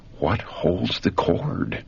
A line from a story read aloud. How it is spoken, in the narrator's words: in whispered anguish, the words were breathed